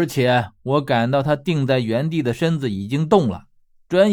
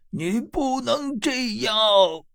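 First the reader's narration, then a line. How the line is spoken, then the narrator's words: Sudden hysterical scream. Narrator (Chinese): 青奴突然歇斯底里的喊道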